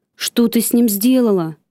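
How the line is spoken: Shouting. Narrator (Russian): закричав

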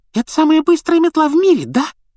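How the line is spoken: Squeaky young boy. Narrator (Russian): пропищал парнишка младше Гарри

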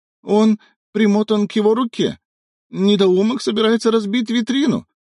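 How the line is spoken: Howled. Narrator (Russian): взвыл Лазарь

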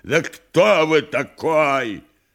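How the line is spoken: Furious yelling. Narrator (Russian): Совершенно свирепев, Никанор Иванович завопил

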